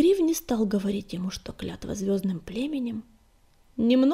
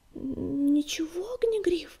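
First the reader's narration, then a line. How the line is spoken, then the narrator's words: Timid babble. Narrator (Russian): пролепетала Рыжинка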